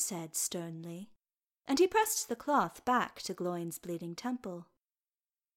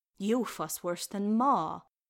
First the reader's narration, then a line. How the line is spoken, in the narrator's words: Gloin grumbled